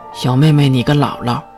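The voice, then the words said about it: Quiet muttering. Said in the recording (Chinese): “小声嘟囔”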